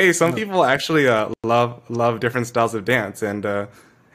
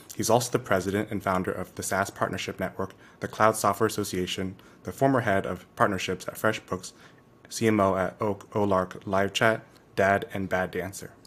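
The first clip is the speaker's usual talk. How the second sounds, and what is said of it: Flat deadpan reading. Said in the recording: “you read that so dead deadpan”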